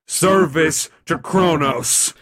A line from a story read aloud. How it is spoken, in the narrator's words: the Titan roared